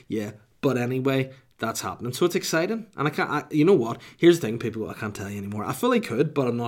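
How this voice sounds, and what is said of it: Usual voice. Nothing is said of it.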